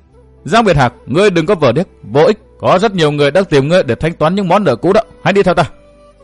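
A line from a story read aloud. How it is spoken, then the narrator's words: Raised voice. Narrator (Vietnamese): Tiểu tiên nữ cao giọng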